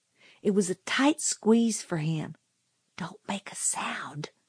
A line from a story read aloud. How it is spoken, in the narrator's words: he whispered